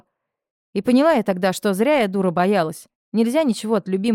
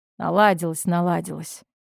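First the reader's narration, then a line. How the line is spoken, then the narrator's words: Grumbling. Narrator (Russian): проворчала она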